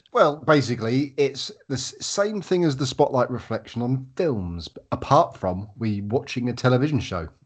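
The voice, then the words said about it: Hoarse, failing voice. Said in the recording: “I'm losing my voice, bear with me.”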